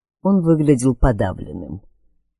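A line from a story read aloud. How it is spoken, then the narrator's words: Quiet. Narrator (Russian): тихо проговорил его собеседник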